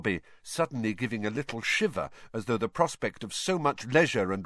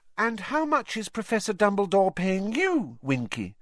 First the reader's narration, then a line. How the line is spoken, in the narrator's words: Hermione asked kindly